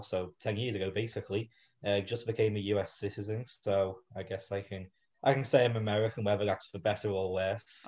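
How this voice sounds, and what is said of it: Liverpool English accent. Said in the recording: “I'm sure they hear the accent ... I moved here from Liverpool, England”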